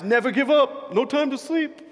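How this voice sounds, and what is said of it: Impression of Russell Wilson. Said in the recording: “he doesn't sound like that probably, but that's my impersonation”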